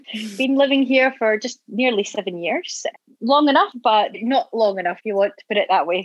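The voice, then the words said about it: Scottish accent. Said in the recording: “I'm from Scotland. Don't know if you know from the accent.”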